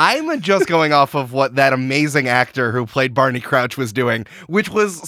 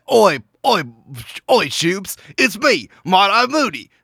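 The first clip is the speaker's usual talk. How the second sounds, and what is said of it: Bad put-on Cockney-like accent. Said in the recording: “a terrible Irish accent ... That is terrible because it was like a bad Cockney accent, and now you've decided that that's what Ireland is.”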